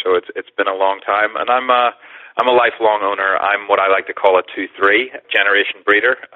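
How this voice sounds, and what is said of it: Northern Irish accent. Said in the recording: “where's the accent from ... originally from Belfast, Northern Ireland, via London”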